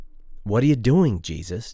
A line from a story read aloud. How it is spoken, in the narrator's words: Joe exclaims